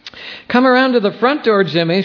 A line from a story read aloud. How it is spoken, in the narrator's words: she shouted